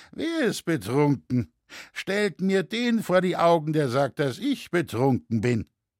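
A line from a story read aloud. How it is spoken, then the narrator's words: Drunken slurring. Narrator (German): lallte der Schuster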